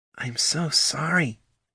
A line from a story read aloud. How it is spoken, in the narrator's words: whispered Poldo